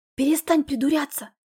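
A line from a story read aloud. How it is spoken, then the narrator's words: Soft whisper. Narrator (Russian): шепнула ему тихонько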